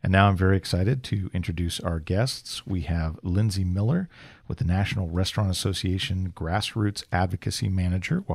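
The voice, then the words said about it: Radio announcer voice. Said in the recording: “You have such a nice radio voice”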